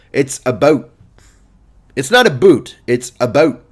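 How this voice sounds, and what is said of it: Canadian accent. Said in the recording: “I've done a Canadian accent, and I forgot how good I am at it. Fucking best in the game ... You got to do it like that.”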